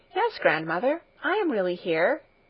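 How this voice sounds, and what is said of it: Gentle, reassuring voice. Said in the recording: “answered Heidi in a reassuring voice.”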